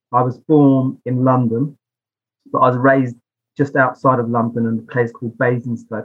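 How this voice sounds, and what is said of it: British English accent. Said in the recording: “everybody listening can probably glean from my accent I'm from the UK”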